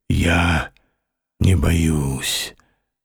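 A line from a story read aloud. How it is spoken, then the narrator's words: Muffled reply. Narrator (Russian): отозвался он глухо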